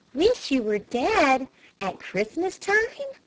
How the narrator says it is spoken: cried Flame

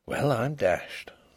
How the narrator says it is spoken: He could only keep repeating very softly to himself

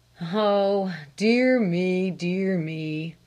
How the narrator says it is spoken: sighed her father

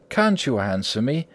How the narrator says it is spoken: said Wildeve warmly

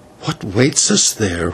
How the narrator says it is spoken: whispered the señor

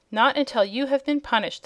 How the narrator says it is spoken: exclaimed the Boolooroo sternly

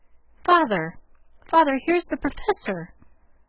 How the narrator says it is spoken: Jo cried out with a scandalized face

